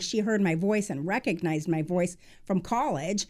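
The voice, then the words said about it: Slightly twangy Midwestern accent. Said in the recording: “my family moved from Iowa. Perhaps I have a little bit of a twangy accent”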